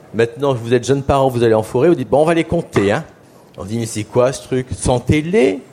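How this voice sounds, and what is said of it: Usual voice. Nothing is said of it.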